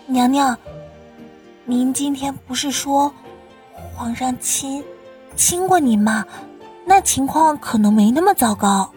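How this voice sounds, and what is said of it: Quiet, hushed speech. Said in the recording (Chinese): “小声道”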